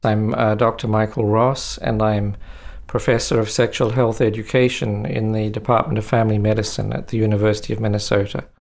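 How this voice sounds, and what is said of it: New Zealand accent. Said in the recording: “You might detect an accent here. is originally from New Zealand”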